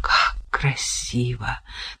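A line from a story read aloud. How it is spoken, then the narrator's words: Mumbling. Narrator (Russian): пробормотала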